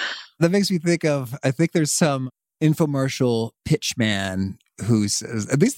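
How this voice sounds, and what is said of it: Usual voice. Nothing is said of it.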